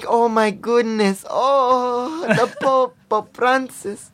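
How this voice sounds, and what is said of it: Imitation of mother's accent. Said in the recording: “she has that accent”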